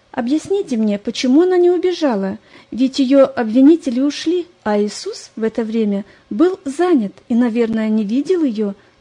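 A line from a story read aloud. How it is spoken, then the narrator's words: Agitated questioning. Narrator (Russian): взволнованно допытывалась Лариса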